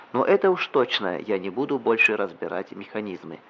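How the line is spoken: Plain. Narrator (Russian): сказал он

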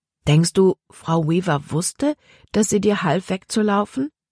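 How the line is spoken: Plain question. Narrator (German): fragte Libby

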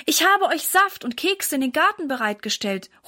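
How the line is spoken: Calling out. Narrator (German): ruft Mama ihnen zu

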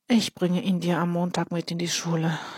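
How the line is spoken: Sighing. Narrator (German): seufzt Ole

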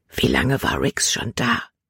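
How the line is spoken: Whispered. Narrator (German): flüsterte sie

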